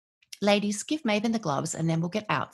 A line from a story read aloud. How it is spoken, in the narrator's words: says Cassandra